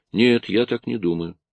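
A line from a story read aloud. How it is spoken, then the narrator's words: Calm. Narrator (Russian): Тоби сказал спокойно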